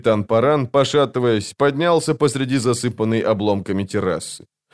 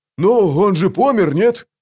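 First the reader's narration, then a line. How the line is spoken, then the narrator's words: Offended snap. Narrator (Russian): обиженно огрызнулся вал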